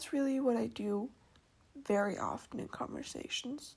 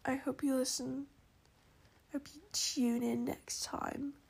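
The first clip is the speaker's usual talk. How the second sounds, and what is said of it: Put-on British accent. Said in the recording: “I just threw in the British accent ... when I want to emphasize something ... you just threw in an accent”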